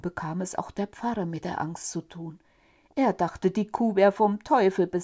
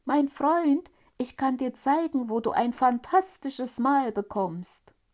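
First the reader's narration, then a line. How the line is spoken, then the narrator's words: Tiny boy calling. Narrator (German): rief der Däumling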